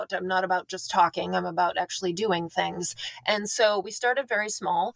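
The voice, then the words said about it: Rural North Dakota accent. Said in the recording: “I'm from a rural area in North Dakota. That's what my accent is”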